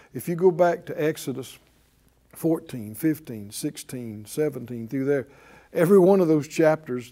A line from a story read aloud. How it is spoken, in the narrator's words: they murmured